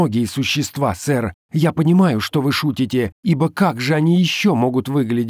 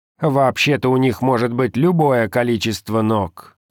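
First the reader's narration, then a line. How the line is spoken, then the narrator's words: Grumbling god. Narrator (Russian): проворчал Бог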